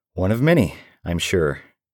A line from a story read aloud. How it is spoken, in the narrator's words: I said nervously